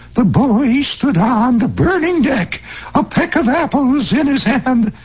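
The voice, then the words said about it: Preacherish amateur reading voice. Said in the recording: “The vaguely Norman Vincent Peale preacherish voice ... the kind of voice that so many non-professional readers assume when they read ... that's called the reading voice”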